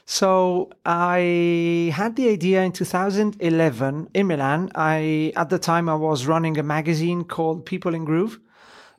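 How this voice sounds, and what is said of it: Italian accent with some British. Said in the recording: “I am Italian ... I was born and raised in Italy. British dad, Italian mum. So if you hear a strange accent, that's the reason. ... It's a great accent.”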